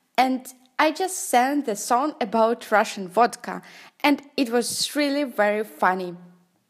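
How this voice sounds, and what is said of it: Non-native English accent. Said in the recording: “Sorry for my accent”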